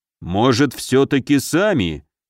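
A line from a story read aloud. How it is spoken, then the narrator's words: Low fearful rumble. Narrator (Russian): Негромко прогудел Муром, а то как-то боязно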